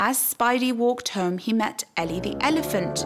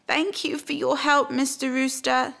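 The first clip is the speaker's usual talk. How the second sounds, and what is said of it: Sad voice. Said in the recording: “said Spidey in a sad voice.”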